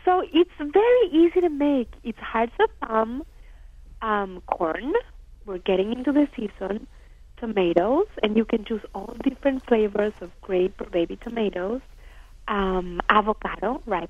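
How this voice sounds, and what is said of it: Speaker with a noticeable accent. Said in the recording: “my accent doesn't help either, I guess ... it's charming ... it's adorable”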